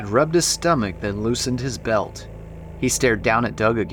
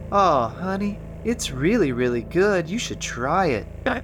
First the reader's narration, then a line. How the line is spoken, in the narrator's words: said Janie, sleepily